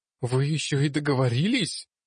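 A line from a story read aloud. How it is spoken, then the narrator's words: Loud groan. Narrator (Russian): Тар и громко застонал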